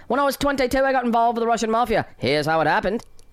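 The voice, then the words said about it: Choppy British storyteller accent. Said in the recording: “talk in like it's like there's dashes in there ... a British accent”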